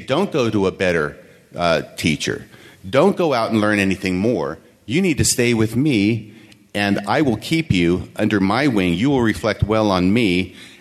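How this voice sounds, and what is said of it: Sarcastic tone. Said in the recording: “I'm being sarcastic”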